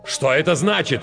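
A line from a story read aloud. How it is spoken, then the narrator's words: Shout. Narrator (Russian): крикнул он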